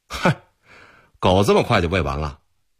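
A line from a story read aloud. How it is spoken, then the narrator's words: Sentry, laughing question. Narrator (Chinese): 一个哨兵笑着问道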